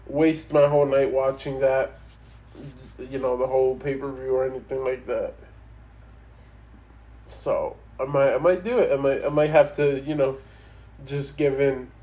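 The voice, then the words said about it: Congested, stuffy-nosed voice. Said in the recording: “And my voice, yes, I sound different. It's because I have a runny nose. ... Still a little bit of the cough.”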